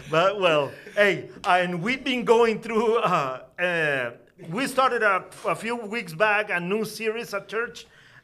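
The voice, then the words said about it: Hispanic accent. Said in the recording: “my accent is real ... fake Hispanic pastor ... he's not really from South America”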